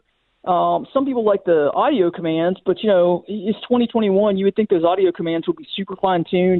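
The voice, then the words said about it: Thick Texas accent. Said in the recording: “Texas accent ... so thick”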